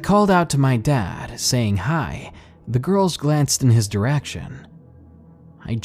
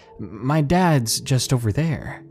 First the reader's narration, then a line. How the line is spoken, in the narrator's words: I stuttered